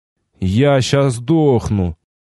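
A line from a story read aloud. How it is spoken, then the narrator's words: Exhausted, gloomy statement. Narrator (Russian): едва оклемавшись после третьей обезвреженной по пути решетки, мрачно констатировал я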